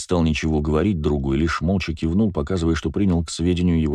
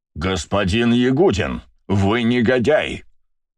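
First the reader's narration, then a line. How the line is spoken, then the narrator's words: Roaring. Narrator (Russian): проревел Вельский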